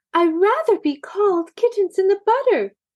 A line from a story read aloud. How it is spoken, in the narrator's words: exclaimed Maisie